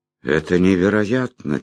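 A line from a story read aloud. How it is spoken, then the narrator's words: Quiet. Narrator (Russian): тихо сказал я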